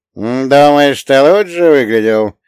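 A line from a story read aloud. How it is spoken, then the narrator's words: Sarcastic old woman snort. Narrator (Russian): Язвительно фыркнула маленькая старушка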